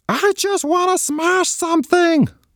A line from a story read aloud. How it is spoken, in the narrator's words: wailed Simon